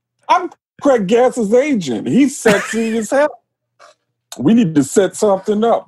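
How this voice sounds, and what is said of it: Tracy Morgan impression. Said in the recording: “do a Tracy Morgan impression”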